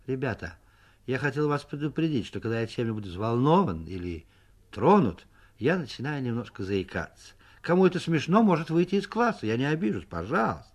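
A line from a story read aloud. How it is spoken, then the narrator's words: Calm, slightly embarrassed. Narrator (Russian): слегка покраснел и сказал в сторону Соньки нормально и спокойно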